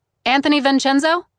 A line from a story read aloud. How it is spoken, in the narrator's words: She called out